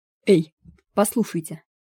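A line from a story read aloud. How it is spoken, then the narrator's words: Sharp. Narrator (Russian): резко заговорил Стефан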